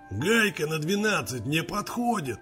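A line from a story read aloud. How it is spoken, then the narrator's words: Hoarse displeased male voice. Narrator (Russian): Прохрипел недовольно мужской голос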